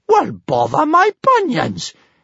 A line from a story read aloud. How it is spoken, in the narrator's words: exclaimed big-boobied Bertha